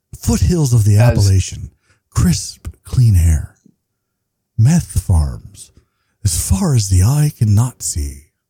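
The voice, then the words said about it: Radio announcer voiceover voice. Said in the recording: “do my Rush Limbaugh radio voice as a voiceover”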